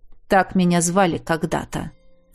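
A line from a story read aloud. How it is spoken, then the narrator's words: Old man's grumble. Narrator (Russian): проворчал старик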